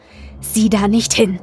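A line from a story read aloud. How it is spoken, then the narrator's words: Gruff. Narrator (German): sagte er barsch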